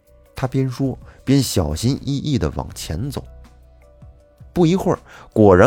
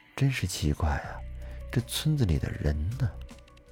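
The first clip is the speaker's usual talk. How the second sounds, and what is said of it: Quiet muttering whisper. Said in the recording (Chinese): “小声的嘀咕着”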